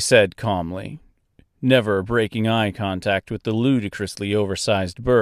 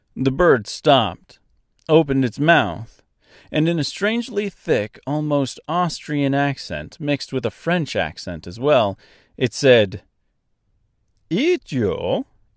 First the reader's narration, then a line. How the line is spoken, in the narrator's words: It laughed